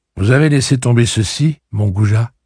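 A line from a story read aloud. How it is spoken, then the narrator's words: Plain. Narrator (French): dit-elle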